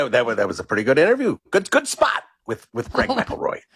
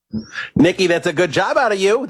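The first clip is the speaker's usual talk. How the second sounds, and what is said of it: Impression of Mad Dog. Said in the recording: “is pretty good. pop on here, do an impression of Mad Dog saying good job out of you, Nikki”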